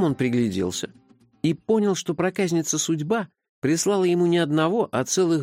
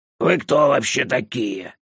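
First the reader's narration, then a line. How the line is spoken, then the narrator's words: Indignant hoarse disembodied voice. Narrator (Russian): возмущенно спросил хриплый голос из пустоты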